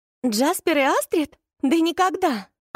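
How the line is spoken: Near-shrieking with laughter. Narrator (Russian): Она почти что визжала от смеха

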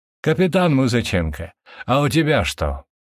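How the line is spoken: Question after laughing. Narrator (Russian): отсмеявшись, спросил полковник

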